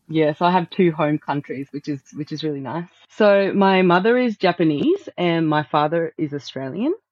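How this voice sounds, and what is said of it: Slight Australian accent. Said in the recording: “you have a bit of an Australian accent”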